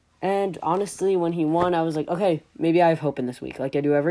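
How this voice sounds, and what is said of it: Usual voice. Nothing is said of it.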